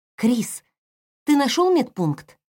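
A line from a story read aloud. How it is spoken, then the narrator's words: Worried question. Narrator (Russian): взволнованно спросила она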